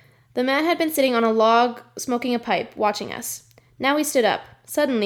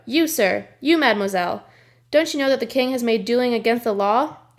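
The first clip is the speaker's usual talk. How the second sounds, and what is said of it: Big deep booming male voice. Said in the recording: “a big, deep voice boomed out”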